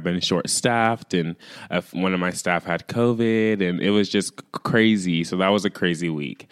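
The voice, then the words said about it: Raspy, recovering voice. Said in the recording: “my voice was gone for like, I think a week, and I'm just now getting it back ... my voice sounds raspy ... I have to keep clearing my throat ... sounding like I smoke like a whole pack of cigarettes”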